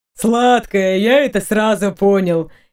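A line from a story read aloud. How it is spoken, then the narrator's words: Coachman's chuckle. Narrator (Russian): хохотнул кучер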